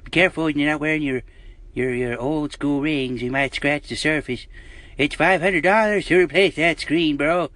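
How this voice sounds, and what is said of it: Old man voice. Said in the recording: “that old man voice”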